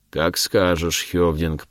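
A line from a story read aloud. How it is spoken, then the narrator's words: Deep bass voice. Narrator (Russian): пробасил вепрь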